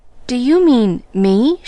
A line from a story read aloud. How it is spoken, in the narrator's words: She stammered